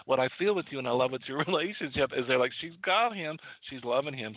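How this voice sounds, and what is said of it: Slight Southern accent. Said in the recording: “I've got a little bit of an accent today. I've been all day talking with friends of mine from the south, and I do pick it up.”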